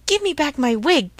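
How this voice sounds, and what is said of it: Surly shouted line. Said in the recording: “shouted Maestro Antonio in a surly voice.”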